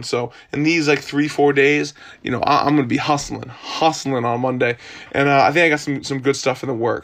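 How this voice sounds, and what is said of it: Hoarse voice. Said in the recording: “I'm a little kind of, you know, hoarse. ... some kind of throat throat thing ... just like a throat cold”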